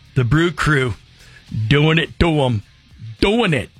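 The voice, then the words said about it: Weak attempt at Wisconsin accent. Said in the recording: “That's not a Wisconsin accent, is it?”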